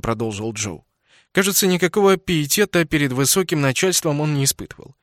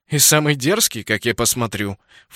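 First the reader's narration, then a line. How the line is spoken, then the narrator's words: Snorted. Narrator (Russian): фыркнул Джастин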